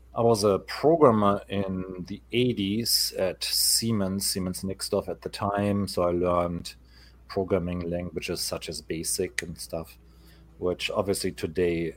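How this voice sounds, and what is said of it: German accent. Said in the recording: “The funny accent that you hear, my voice originated in Germany.”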